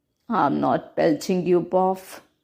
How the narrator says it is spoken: Buff said sleepily

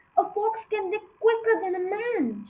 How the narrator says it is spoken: shouted Mr

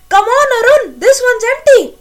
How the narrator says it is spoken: Satish jumped on the footboard of a lighted compartment and shouted

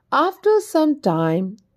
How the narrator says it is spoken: the boy mischievously shouted again

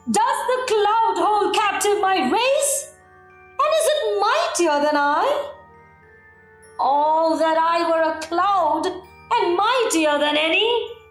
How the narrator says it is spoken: Discontent once more filled his soul, cried in his anger

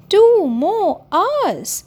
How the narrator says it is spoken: exclaimed Timmy

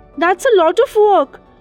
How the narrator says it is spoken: exclaimed the royal builder

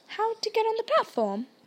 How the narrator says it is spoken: said kindly

